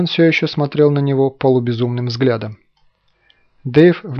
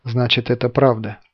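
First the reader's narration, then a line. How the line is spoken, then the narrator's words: Whisper. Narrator (Russian): прошептал Семен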